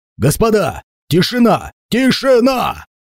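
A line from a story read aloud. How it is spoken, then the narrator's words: Panicked shouting. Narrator (Russian): больше всех кричал и паниковал именно он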